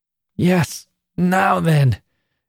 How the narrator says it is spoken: gasped Annie at length

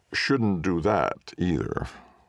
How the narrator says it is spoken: he laughed

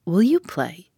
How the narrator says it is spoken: asked

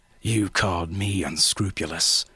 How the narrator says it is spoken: the traitor snarled

